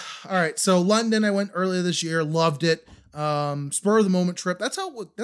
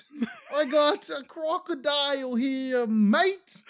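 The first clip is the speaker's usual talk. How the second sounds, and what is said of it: Bad high-pitched fake Australian accent. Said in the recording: “they're all high-pitched ... In that weird voice he was just doing ... Oh, it's terrible. It's one of the worst I've ever heard.”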